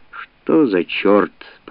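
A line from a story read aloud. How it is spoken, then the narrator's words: Puzzled grumble. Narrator (Russian): проворчал озадаченный император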